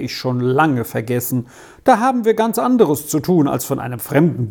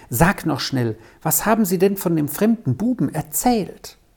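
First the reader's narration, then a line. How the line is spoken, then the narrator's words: Whispering. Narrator (German): flüsterte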